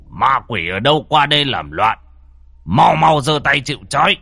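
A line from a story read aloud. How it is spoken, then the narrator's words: Barking shout. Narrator (Vietnamese): lão thầy quát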